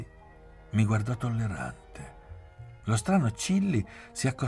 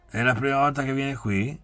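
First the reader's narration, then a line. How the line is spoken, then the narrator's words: Plain. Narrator (Italian): chiese Pierretto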